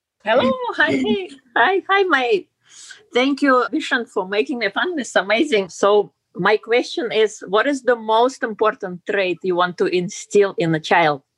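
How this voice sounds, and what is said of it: Russian accent. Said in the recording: “And your accent is from where? ... Russian.”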